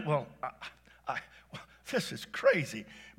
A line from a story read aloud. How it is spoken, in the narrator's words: Bart sputtered